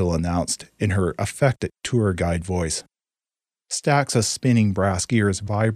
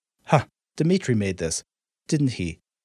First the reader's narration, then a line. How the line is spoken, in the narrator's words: scoffed